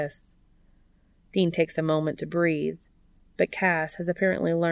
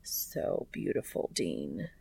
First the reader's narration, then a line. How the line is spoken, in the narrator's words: Cass murmurs